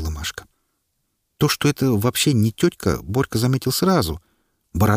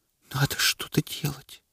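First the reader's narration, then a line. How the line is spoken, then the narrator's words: Whispered. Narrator (Russian): прошептала Машка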